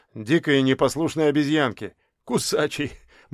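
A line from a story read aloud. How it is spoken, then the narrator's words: Grim chuckle. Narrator (Russian): мрачно хохотнул он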